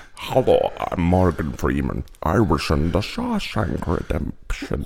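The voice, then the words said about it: Morgan Freeman impression, sounds Scottish. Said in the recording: “the Morgan Freeman impression ... Why is he start off Scottish? ... I forgot his accent. ... Is Scottish the only accent you could do?”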